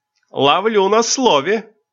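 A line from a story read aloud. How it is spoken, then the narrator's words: Shouted. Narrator (Russian): крикнула Миэн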